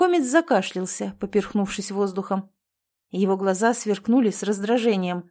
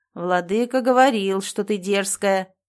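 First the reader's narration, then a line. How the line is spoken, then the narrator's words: Grumbling. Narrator (Russian): проворчал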